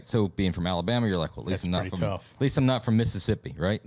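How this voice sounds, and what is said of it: Slight Southern US accent. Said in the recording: “born and raised in the South ... I'm from the South. I got a little bit of an accent.”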